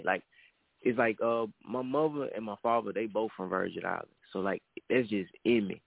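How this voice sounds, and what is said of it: Florida accent with slight growl. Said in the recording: “I might have a damn more Florida accent than a Virgin Island accent. ... You got that little growl, though.”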